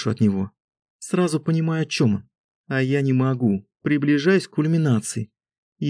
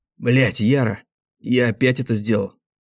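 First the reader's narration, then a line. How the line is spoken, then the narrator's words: Hoarse whisper. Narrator (Russian): Хрипло шепчет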